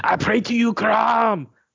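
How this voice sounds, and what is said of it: Loud Arnold Schwarzenegger impression. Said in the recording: “at the top of your lungs in your best Arnold Schwarzenegger impersonation”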